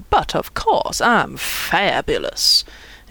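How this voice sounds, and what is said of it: Over-the-top put-on accent. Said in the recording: “proclaimed ... in an OTT accent”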